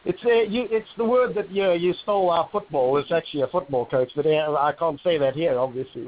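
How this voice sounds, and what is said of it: Foreign soccer coach accent. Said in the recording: “I'm an old soccer coach, as you can tell from my accent.”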